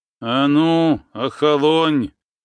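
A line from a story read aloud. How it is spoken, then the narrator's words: Commander's order through teeth. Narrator (Russian): сквозь зубы приказал атаман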